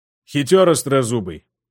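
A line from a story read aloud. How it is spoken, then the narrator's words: Wry grunt. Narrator (Russian): хмыкнул Жак, резюмируя вышесказанное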